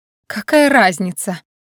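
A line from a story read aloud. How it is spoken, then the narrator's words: Angry woman. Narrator (Russian): зло отозвалась обладательница внушительного бюста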